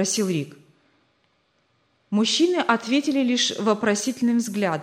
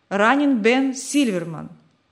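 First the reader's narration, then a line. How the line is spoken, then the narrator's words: Plain. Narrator (Russian): ответил тот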